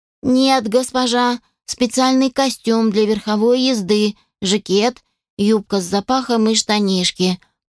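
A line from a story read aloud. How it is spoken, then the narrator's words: Even explaining tone. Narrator (Russian): пояснила ровным тоном Шерри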